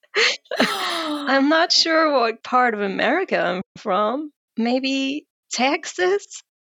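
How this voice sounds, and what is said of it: Bad put-on American accent. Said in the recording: “This is my American accent... It's like a hybrid of really bad accents... Three different accents.”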